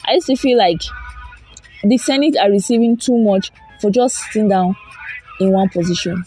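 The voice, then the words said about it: Hoarse, strained voice. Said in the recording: “I'm losing my voice right now”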